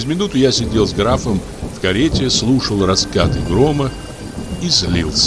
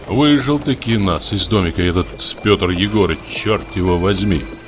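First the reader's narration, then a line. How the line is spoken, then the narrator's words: Angry grumbling. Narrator (Russian): ворчал я, не на шутку рассердясь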